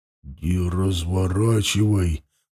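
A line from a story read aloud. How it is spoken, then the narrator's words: Mumbled. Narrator (Russian): бормотал Мохнач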